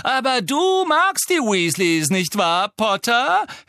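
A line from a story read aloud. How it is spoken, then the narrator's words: Mocking sneer. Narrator (German): höhnte Malfoy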